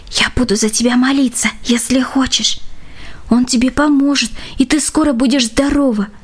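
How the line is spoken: Trusting whisper in ear. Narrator (Russian): подружка доверчиво шептала ей в самое ухо

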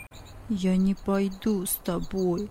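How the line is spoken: Mumbling. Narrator (Russian): пробормотал он

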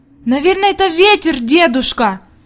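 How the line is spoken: Anxious exclamation. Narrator (Russian): воскликнула Хайди, и в глазах ее появилась тревога

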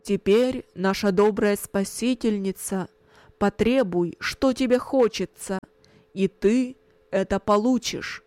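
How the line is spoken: Loud. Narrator (Russian): громко сказал

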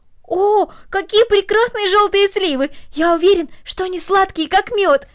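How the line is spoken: Exclaiming. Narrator (Russian): воскликнул Дино

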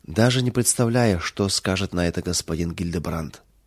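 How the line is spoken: Maid's sad remark. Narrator (Russian): печально заметила служанка

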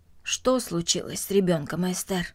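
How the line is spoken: Plain. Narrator (Russian): спросил он

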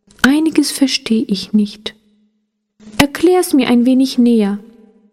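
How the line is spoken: Soft. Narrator (German): sagte sie dann leise

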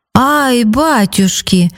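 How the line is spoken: Exclaimed. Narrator (Russian): воскликнул он потом

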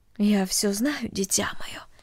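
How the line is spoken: Mother's quiet voice. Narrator (Russian): тихо сказала мать

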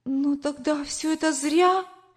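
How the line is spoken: Tearful exclamation. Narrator (Russian): воскликнула, чуть не плача

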